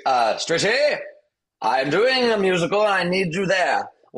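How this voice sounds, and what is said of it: Noel Coward impression. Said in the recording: “her Noel Coward impression”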